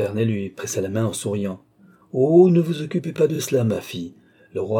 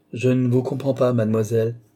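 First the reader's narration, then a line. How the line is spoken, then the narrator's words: Curt. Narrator (French): dit Tavernet d'un ton sec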